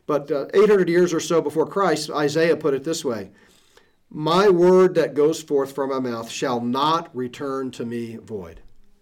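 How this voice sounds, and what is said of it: Strained voice about to give out. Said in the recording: “I'm dealing with a cold, so if I sound like my voice is about to give out, it's probably because it is.”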